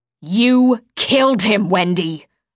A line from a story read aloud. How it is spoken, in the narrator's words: my mother snarled